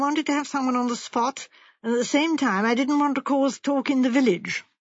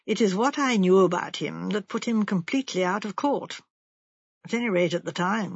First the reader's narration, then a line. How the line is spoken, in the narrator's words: said Sir Henry gravely